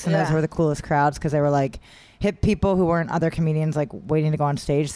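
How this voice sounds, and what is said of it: South New Jersey accent. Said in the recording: “Is that a New Jersey accent? ... Yeah, sure. ... I'm South Jersey outside of Philly.”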